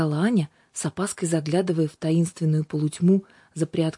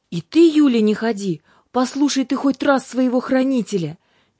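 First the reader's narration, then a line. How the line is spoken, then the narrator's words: Resigned shout. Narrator (Russian): Без особой надежды быть услышанным, прокричал и ангел Юлиус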